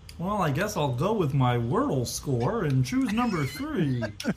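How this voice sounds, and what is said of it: Off-brand Kermit the Frog voice. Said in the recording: “an off-brand Kermit, is your impression”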